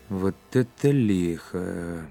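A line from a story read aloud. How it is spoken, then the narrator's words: Muttered. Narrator (Russian): бормотал Быков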